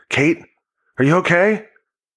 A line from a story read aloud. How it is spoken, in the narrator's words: Denny just yelled